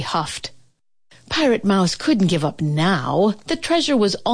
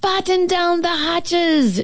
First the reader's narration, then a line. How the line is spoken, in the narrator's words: she shouted